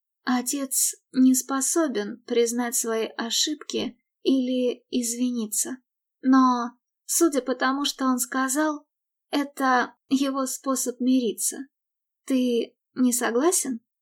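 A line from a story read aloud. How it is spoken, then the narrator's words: Gentle. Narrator (Russian): Мередит мягко сказала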